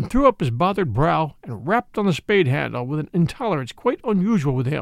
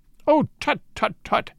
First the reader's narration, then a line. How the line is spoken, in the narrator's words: cried